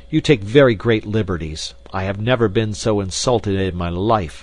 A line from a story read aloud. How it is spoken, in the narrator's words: I cried angrily